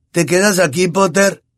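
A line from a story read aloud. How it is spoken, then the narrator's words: Shouted. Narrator (Spanish): gritó Malfoy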